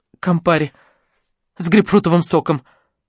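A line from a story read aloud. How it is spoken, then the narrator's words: Strange, broken tone. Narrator (Russian): ответила Лариса каким-то странным надломленным тоном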